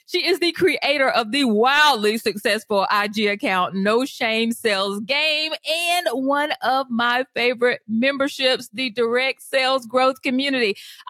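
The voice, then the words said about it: Excited, energetic voice. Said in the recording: “I am so excited, y'all. Can you hear it in my voice?”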